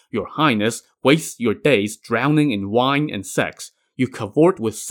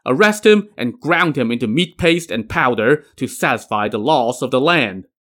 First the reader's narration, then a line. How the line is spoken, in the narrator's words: He then barked